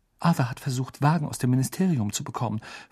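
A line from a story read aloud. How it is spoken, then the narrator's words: Whispered. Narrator (German): flüsterte Mrs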